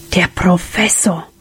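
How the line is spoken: Whispering. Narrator (German): wisperte Sam

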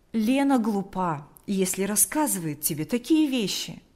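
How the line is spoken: Friendly reply. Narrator (Russian): ответил он приветливо

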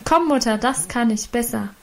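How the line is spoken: Female calling out. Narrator (German): rief sie

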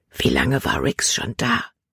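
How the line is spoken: Whisper. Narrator (German): flüsterte sie

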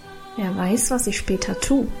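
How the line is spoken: Mysterious murmur. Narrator (German): murmelte Karl geheimnisvoll

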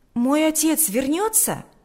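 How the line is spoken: Exclamation. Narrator (Russian): воскликнул Сережа

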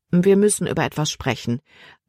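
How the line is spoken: Plain. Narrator (German): antwortete Kapitän Norstad

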